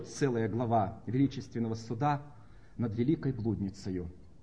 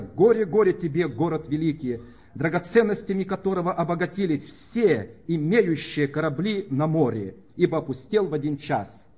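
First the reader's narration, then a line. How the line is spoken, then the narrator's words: Wailing, weeping crowd. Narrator (Russian): вопили, плача и рыдая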